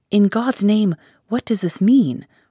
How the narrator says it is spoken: Harker cried out

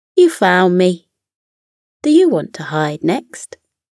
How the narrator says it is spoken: grinned and said

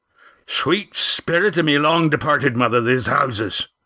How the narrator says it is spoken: Roaring Jack's exclamation shattered the silence

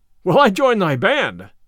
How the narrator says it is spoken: cried the tanner, joyfully

